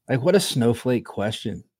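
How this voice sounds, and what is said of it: Imitates another person's voice. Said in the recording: “in my RJ voice”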